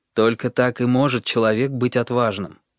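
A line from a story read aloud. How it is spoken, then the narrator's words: Plain, father. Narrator (Russian): ответил отец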